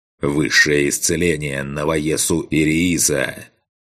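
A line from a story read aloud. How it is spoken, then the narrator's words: Growled. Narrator (Russian): прорычал я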